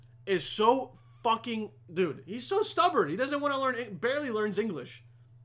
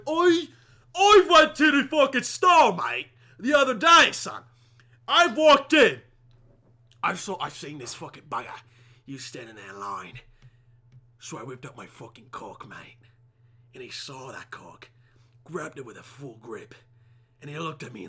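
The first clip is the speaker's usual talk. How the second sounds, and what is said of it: Put-on British accent. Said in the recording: “impersonating a British person”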